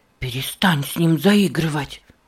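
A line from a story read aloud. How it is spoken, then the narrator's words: Sharp hiss. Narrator (Russian): резко прошипел Нева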